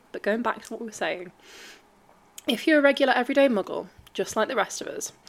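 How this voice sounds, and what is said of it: Voice breaking, congested from a cold. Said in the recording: “my voice keeps breaking. I have a bit of a cold”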